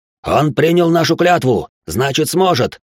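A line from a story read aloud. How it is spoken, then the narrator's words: Barking. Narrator (Russian): рявкнул Коракс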